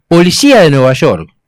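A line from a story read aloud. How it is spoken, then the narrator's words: Rude men shouting loudly. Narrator (Spanish): dos tipos groseros levantaron la voz y gritaron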